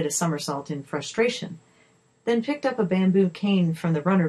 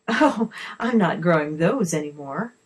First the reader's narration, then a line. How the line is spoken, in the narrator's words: the lady laughed